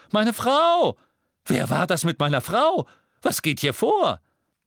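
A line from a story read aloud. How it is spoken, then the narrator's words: Shouted. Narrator (German): Verwirrt blickte Yorksley von Harry zu dem zusammengeschlagenen Zauberer, während der echte Red Cattermole schrie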